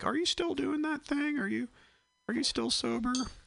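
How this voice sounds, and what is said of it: Impression of a friend. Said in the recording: “That's my impression of that friend.”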